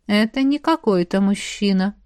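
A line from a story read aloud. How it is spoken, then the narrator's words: Thoughtful drawl. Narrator (Russian): задумчиво протянул Дарри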